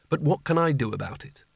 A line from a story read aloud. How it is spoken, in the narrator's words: he mumbled